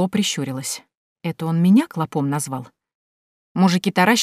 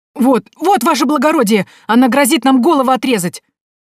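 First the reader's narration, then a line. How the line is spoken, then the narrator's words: Yelled. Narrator (Russian): завопил Вертер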